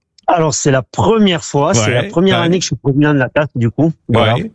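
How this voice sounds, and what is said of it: Catalan accent in French. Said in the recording (French): “son joli petit accent ... un Catalan expatrié en Suisse”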